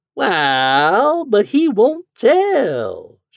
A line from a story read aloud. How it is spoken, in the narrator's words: she drawled out